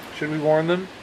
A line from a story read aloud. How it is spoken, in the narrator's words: one squirrel said